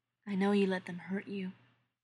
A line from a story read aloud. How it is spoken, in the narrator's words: Eric says quietly